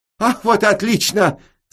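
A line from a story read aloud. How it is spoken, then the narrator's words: Enthusiastic shout. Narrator (Russian): с энтузиазмом крикнул хозяин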